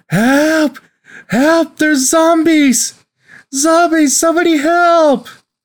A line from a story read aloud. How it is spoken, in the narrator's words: She's screaming